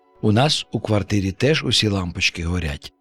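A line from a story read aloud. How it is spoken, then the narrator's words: Plain. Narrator (Ukrainian): сказав Гоша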